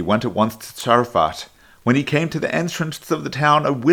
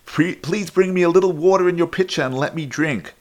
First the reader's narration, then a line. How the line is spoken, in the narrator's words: He called out to her